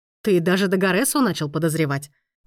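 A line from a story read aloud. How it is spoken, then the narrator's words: Wry hum. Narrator (Russian): хмыкнул Лоренцо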